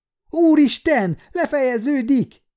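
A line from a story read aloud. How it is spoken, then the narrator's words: Terrified scream. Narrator (Hungarian): sikoltott Niki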